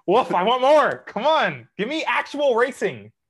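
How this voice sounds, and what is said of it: Yelling. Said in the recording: “I'm yelling”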